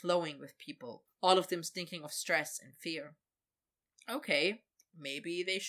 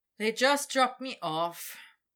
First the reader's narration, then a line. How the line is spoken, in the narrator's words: Victor said with a sigh